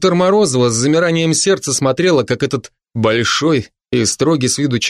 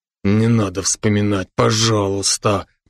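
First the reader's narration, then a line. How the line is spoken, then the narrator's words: Groaning. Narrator (Russian): застонал Брок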